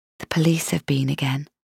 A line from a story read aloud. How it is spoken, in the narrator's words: I whispered in her ear